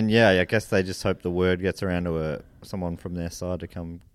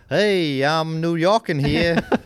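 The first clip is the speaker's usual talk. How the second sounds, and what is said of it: Put-on New York accent. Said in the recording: “It's a good New York accent.”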